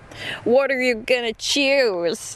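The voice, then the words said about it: Put-on accent. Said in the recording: “Did you like my accent?”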